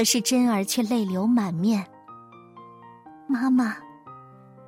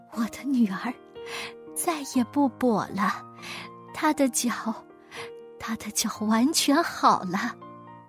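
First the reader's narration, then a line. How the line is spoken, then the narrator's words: Mother murmuring. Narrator (Chinese): 他妈妈喃喃地说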